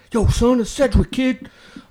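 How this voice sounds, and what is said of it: Latin-sounding impression of another man. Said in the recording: “That's a good impression. ... Yeah, that was a really good impression. ... It sounded Latin and so, everything.”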